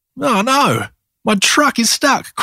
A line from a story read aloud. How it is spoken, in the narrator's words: cried Maxy